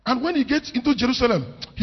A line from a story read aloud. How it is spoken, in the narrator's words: he cried first